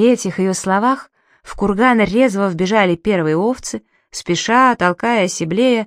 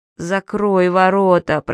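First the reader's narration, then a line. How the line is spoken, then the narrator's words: Moaning. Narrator (Russian): простонал Гейр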